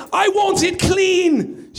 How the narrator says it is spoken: she said, imitating the British man's yell

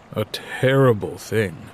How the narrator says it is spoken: Dad says gravely

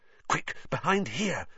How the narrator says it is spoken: Harry hissed

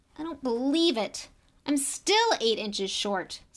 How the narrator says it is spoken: said Ron furiously

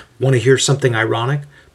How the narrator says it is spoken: Paul asks those nearby in a conversational tone

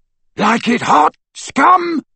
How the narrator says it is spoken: roared Crabbe as he ran

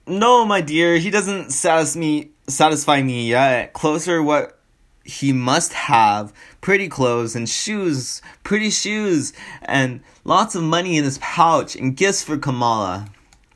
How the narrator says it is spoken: Laughing, Kamala exclaimed

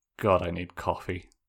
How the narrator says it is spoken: he muttered

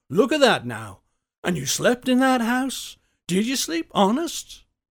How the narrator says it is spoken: exclaimed

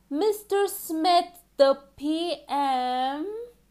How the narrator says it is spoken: repeated loudly

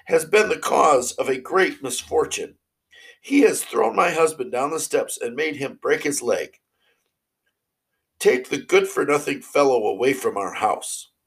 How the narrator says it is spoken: she cried

